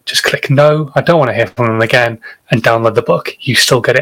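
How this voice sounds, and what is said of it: Northern English accent. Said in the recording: “this dodgy northern accent”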